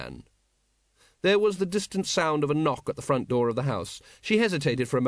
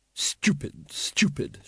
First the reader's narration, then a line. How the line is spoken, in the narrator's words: muttered